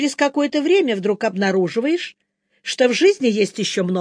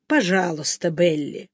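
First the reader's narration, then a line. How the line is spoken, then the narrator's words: Tender. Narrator (Russian): ласково произнес Чарли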